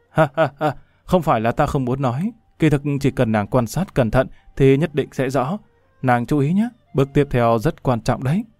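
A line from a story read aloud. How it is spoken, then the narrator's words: Bursting into laughter. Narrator (Vietnamese): Lâm Văn Vinh cười phá lên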